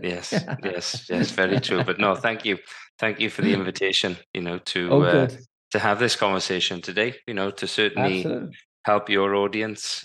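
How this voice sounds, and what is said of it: Welsh accent. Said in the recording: “for you guys that have not picked up the accent, yes, he is originally from Wales”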